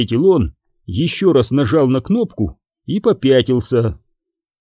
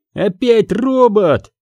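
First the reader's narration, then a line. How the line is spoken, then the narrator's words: Shout. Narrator (Russian): крикнул Пак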